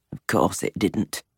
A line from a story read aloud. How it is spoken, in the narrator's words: he said, his voice rough